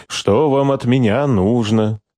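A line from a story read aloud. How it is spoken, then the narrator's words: Mocking. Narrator (Russian): Насмешливо подбодрил генерала Штубер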